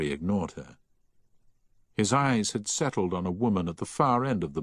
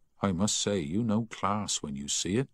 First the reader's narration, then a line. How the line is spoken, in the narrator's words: she said